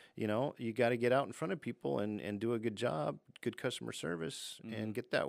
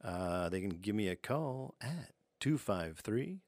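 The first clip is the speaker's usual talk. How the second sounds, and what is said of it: Late-night radio announcer voice. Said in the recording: “This is my radio voice. ... Late night radio talk show.”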